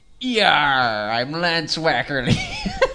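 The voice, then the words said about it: Seafaring sailor character voice. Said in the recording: “I like the seafaring tone of voice there... the seafaring voice”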